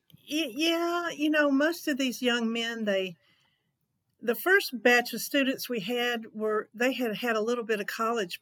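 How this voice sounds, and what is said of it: Southern American accent. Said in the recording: “a Southern accent ... they didn't know I had an accent”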